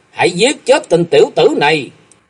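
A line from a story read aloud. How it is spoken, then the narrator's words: Loud shout. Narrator (Vietnamese): Hắn quát to lên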